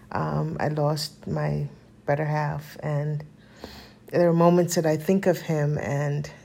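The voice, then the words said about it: Emotional, choked-up voice. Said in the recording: “Oh, I'm getting emotional. ... going through some emotions”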